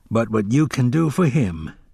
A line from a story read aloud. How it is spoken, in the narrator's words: Hacks sighed